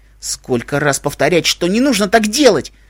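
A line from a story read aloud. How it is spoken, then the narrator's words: Angry shout. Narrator (Russian): зло выкрикнул он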